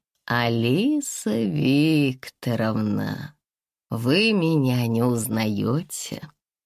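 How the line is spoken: Oily, unctuous voice. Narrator (Russian): сказал он тем маслянистым голосом, после которого очень тяжело отмываются руки

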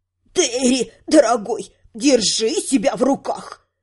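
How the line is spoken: Hissed by old woman. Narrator (Russian): прошипела старушка

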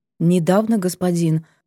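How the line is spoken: Muffled mutter. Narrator (Russian): пробормотала она глухо

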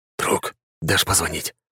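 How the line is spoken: Whispered request. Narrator (Russian): шепотом попросил Руслан

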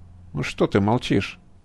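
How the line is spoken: Dry, formal. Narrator (Russian): голос физика звучал сухо, почти официально

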